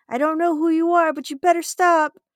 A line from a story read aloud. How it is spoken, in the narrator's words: the increasing anxiety, I got fed up and went outside to scream